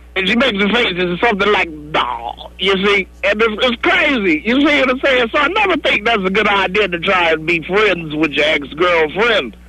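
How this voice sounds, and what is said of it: Imitates another person's voice. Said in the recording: “Cosby impersonation? I think it's a pretty good one ... I think it's a great Cosby impersonation”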